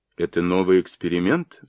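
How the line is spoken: Dry question. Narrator (Russian): сухо спросила она

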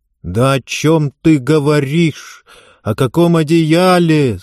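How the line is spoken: Old woman's tearful cry. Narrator (Russian): сквозь слезы вскрикнула бабушка

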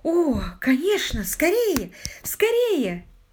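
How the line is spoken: Exclaimed. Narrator (Russian): воскликнула мисс Мэри

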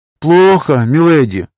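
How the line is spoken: Sigh. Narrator (Russian): вздохнул ее воздыхатель из прошлого

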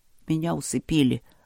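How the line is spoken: Gruff mutter. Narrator (Russian): буркнул Вэйши

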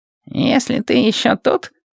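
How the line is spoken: Mumbled. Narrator (Russian): пробормотал он

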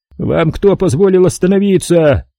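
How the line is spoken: Yell. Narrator (Russian): завопил

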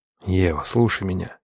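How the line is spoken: Quiet. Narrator (Russian): тихо сказал я

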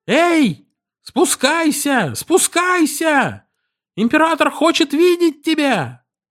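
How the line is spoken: Servant shouting through cupped hands. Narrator (Russian): Слуга сложил руки у рта и закричал

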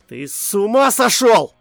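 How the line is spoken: Shouted. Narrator (Russian): выкрикнул я

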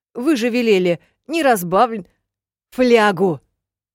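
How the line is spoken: Barking snap. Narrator (Russian): рявкнула я

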